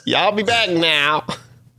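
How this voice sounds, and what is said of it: Bad attempt at southern accent. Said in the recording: “I can't even do a southern accent. ... That was really bad. ... Yeah, that was really bad.”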